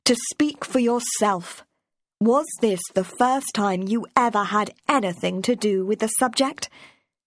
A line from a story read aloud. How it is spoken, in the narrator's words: Markley said sternly